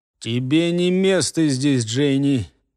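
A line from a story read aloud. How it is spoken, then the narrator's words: Strange clipped voice. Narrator (Russian): Совершенно не своим голосом, только и отчеканил в ее сторону следопыт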